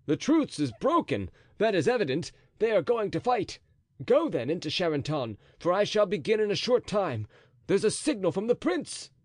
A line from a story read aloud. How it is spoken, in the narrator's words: cried Chatillon